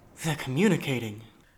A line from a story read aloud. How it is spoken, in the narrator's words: Jethro gasped